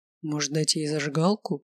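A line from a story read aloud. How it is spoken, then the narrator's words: Whispered. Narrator (Russian): шепнул Олег профессорше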